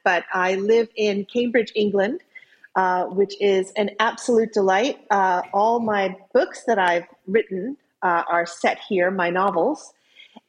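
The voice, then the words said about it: American accent. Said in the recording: “I'm an American. You can tell from my accent”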